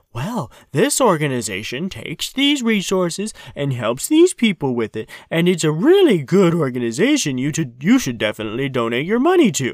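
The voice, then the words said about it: Imitates another person's voice, poorly. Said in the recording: “Who are you imitating there? Andrei Stoika. ... It was a really bad imitation”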